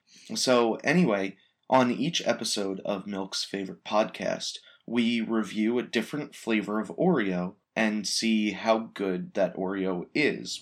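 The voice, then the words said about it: Slightly hoarse voice. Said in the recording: “my voice is probably a little hoarse... I'm very much a yeller”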